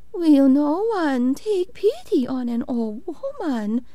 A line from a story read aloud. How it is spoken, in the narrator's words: she cried